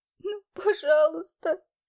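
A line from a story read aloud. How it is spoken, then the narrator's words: Sobbing, heard from outside. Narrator (Russian): Слышались снаружи всхлипы и рыдания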